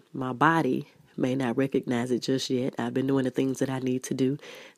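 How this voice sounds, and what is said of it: Unwell, strained voice. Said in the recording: “forgive my voice. I have been dealing with the flu all this week”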